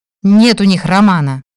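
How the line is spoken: Barking snap. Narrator (Russian): Рявкнула на него Нардина

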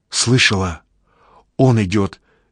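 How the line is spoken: Frightened whisper. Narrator (Russian): испуганно шепчет Анечка

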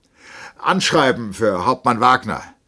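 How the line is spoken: Called out across room. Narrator (German): rief er zum Schanktisch

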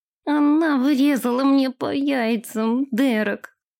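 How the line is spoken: Groaning in pain. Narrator (Russian): Простонал Нэш, все так же сгибаясь от боли

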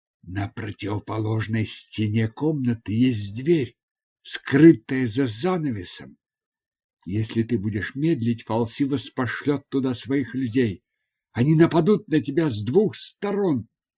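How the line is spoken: Whisper. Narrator (Russian): Занда прошептала

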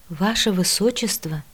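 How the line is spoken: Stunned mutter. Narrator (Russian): ошарашенно пробормотала

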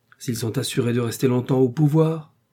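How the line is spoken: Aggressive interruption. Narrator (French): interrompit Blanche d'un ton agressif

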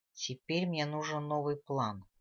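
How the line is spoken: Sigh. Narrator (Russian): Шерайк вздохнул

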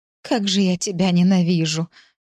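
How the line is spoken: Moaning. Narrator (Russian): простонала

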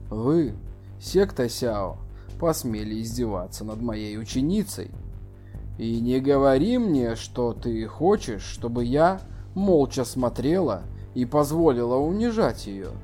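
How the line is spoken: Cold female reply. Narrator (Russian): Чу Юэ Ли холодно ответила

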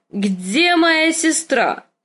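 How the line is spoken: Drunken shout. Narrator (Russian): крикнул Визерис голосом, полным вина

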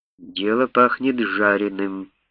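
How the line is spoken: Muttered under breath, English. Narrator (Russian): пробормотал себе под нос капитан Трейс по-английски

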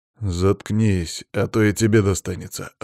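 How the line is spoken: Snarled. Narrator (Russian): рыкнул на него Иван

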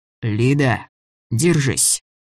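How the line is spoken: Hoarse male wheeze. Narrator (Russian): просипел он

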